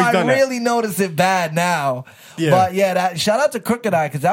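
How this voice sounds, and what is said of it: Usual voice. Nothing is said of it.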